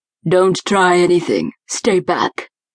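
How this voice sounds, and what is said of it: Hoarse, raspy, deep robotic voice. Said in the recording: “hoarse, raspy voice. The tone was deep and robotic.”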